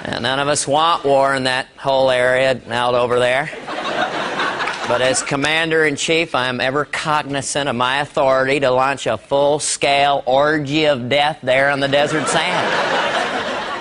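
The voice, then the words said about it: George H.W. Bush impression. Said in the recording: “Dana Carvey doing an impression of the first president, George Bush”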